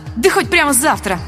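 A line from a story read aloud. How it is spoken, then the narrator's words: Snapped. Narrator (Russian): огрызнулась я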